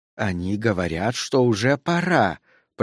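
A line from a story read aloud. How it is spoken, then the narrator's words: Old woman's hiss. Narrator (Russian): прошипела старуха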